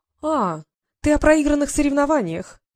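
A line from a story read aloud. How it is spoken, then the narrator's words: Sweet singsong. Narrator (Russian): пропела она сладким голосом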